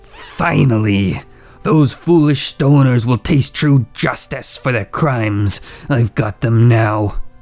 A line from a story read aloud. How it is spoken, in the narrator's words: The commander hissed